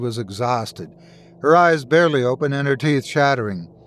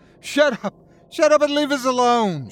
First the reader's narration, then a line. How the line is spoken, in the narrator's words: she screamed